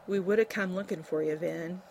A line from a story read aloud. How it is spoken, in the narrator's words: he said softly